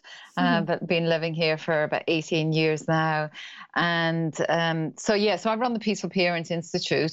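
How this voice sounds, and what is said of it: Irish accent. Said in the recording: “I'm Irish. That's the accent.”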